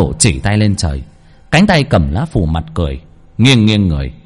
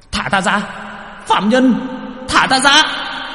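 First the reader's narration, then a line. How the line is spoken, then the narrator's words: Hissing shriek. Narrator (Vietnamese): Quan thần rít lên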